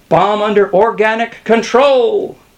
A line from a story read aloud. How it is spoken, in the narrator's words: cried Skinner